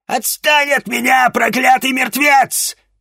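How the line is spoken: Shrieking. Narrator (Russian): визжала она

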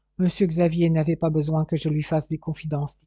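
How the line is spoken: Plain. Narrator (French): dit-elle

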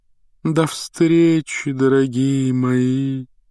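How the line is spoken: Sepulchral breathy voice. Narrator (Russian): за могильным голосом выдохнула Трелони

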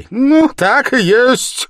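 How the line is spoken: Angry cry. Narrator (Russian): злобно вскрикнул Порфирий

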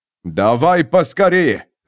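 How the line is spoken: Growling. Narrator (Russian): зарычал Тарант

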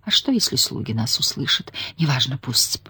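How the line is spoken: Moaned. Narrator (Russian): простонала она

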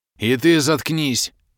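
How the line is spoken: Barked. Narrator (Russian): Рявкнул

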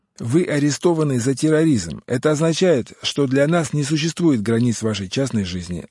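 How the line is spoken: Yelled. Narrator (Russian): заорал Глой

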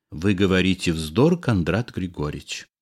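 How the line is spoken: Perfectly calm woman. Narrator (Russian): совершенно спокойно сказала тетя

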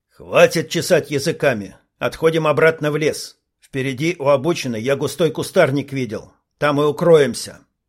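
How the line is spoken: Commanding voice. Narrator (Russian): командирским голосом сказал Илья

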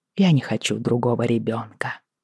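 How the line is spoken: Whisper. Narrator (Russian): прошептал он

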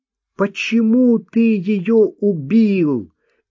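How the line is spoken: Crying out, then weeping. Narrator (Russian): выкрикнула Марта и заплакала

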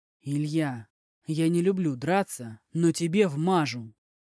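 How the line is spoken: Nearly growling. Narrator (Russian): Артем уже практически рычал

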